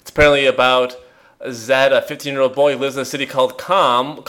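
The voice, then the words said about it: Midwestern accent on a word. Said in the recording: “that was a Midwestern accent moment if there ever was one”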